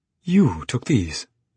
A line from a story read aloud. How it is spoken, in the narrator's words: she exclaimed